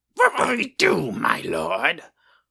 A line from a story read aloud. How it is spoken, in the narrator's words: one of the orcs, impatient, screeched